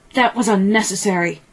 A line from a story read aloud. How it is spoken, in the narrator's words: He snarled